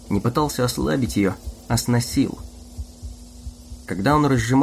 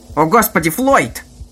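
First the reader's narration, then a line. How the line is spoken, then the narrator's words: Shout. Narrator (Russian): закричал он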